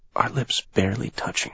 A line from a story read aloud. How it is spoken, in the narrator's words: she whispers